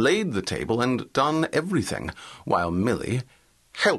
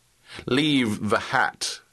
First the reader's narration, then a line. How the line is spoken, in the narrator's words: said her visitor, in a muffled voice